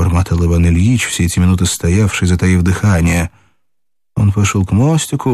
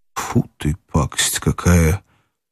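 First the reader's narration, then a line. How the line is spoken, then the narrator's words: Muttered. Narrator (Russian): пробормотал опять Иван Ильич и, морщась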